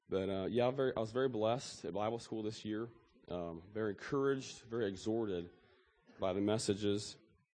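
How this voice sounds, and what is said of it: Voice rough from a cold. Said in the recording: “Sorry for my voice. ... I got a cold in my voice, so it's not very good today.”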